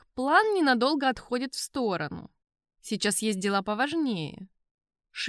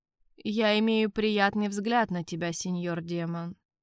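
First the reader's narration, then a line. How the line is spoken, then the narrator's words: Reluctant mumbling king. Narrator (Russian): неохотно промямлил испанский король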